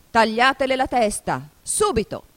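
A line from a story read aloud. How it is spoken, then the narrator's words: Furious shout. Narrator (Italian): La regina diventò di porpora per la rabbia e, dopo di averla fissata selvaggiamente come una bestia feroce, gridò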